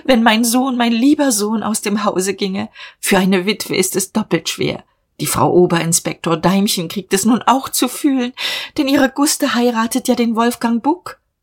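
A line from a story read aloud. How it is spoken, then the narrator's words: Sobbing woman. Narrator (German): schluchzte sie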